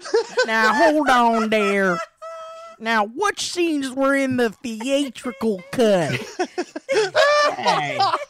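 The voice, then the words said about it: Imitates another person's voice. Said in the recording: “Never said in that accent ever. ... I'm Slim Pickens.”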